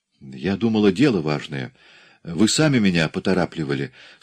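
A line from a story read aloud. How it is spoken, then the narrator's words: Embarrassed. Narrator (Russian): смущенно продолжала Тереза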